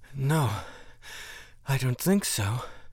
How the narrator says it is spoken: Amuba gasped

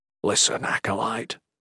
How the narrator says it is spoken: Salem whispered

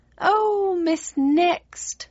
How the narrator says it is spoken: she wailed, her spines bristling with vexation

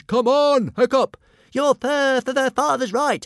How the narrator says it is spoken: panted Toothless

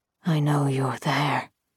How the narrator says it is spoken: he rasped

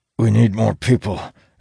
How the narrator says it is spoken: Elias grunts

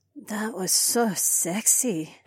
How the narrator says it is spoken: Heiwan murmured

